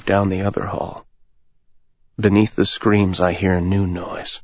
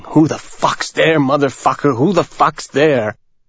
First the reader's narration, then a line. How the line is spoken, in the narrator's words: the man starts screaming